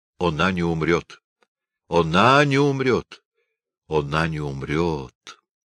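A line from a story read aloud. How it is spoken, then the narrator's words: Muffled, hollow voice. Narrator (Russian): сказал глухо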